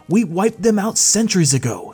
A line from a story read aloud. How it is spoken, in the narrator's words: exclaimed the general